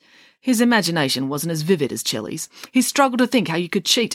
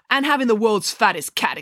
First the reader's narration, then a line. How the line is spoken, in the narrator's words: exclaimed Chelly